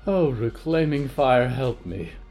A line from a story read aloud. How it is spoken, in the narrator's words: Polly breathed